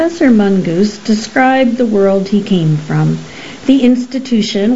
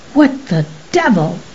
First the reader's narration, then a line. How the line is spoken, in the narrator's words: he snapped involuntarily